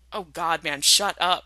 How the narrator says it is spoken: Jensen groans, but he's laughing, too, loud and relieved

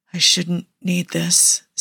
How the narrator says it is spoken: Steve whispers

